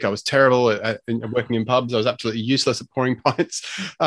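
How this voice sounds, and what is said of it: Unusual Australian accent, partly British. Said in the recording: “my strange sort of weird accent, I'm Australian ... when I was 20, I went over to live and work in the UK”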